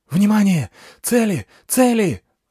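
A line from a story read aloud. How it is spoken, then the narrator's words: Yelling over channel. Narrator (Russian): заорал в канале Гай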